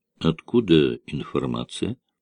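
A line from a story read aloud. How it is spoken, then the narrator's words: Quiet question. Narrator (Russian): тихо спросил Данготар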